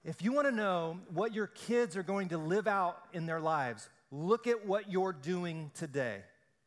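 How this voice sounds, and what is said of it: Loud, rising preaching voice. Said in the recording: “My voice is getting louder”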